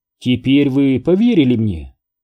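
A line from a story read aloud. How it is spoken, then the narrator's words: Awkward attempted laugh. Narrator (Russian): неловко попытался рассмеяться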